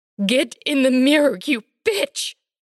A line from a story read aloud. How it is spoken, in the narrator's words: shrieks Pamela